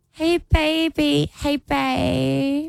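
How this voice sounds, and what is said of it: Cutesy baby voice. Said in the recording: “using the baby voice.”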